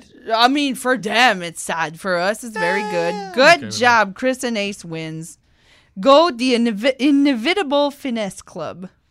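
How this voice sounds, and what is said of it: French accent. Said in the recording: “Sorry, that's the French accent.”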